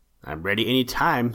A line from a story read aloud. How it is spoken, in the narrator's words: said he